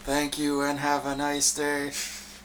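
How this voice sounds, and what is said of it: Robot voice. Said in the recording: “give us your best ... echo. ... Robot voice.”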